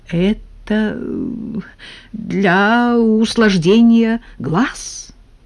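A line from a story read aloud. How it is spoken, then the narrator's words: Uncertain explanation. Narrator (Russian): неуверенно объяснил Николай Никитич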